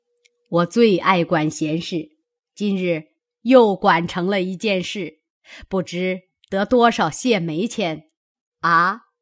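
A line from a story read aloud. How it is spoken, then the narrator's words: Laughing. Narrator (Chinese): 贾母笑道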